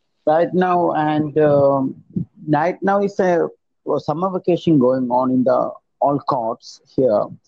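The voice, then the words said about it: Strong accent. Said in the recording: “your accent a little bit because it's a bit strong”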